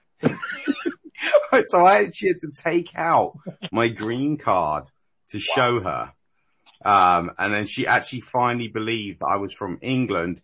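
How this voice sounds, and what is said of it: English accent. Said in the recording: “I'm really English ... that crap English accent”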